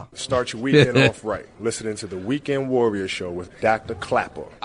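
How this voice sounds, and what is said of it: Mock New York accent. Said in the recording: “Kobe Bryant making fun of a New York accent when you hear him say Dr. Clapper”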